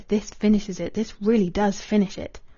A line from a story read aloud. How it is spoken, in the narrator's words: He murmured